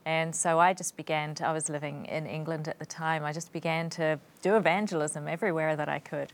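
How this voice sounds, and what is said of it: Non-English accent from another island. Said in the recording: “you don't have an English accent ... Your accent is from another island.”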